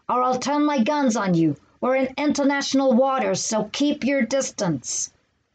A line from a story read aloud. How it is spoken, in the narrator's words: bellowed McCoy